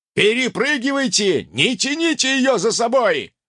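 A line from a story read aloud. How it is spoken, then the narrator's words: Barked command. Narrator (Russian): рявкнул командир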